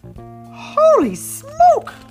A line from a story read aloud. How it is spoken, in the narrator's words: gasped Sir Charlie Stinky Socks